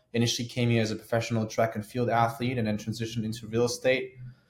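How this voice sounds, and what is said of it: German accent. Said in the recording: “As you guys can hear my accent, I was born in Germany, born and raised.”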